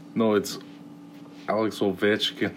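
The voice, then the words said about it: Put-on Scottish accent. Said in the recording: “sound Scottish ... I've recently developed a Scottish accent ... You sound Scottish. It doesn't work. ... That's actually pretty good, though. Like, Scottish accent.”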